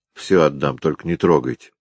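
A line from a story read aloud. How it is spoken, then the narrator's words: Tearful mumble. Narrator (Russian): Пробормотал слезливо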